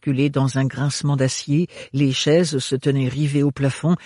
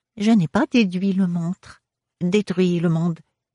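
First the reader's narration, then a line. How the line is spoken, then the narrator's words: Small thin reedy voice. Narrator (French): dit le mille-faces d'une petite voix fluette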